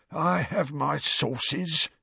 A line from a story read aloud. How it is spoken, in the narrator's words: said Filch, in a self-satisfied hiss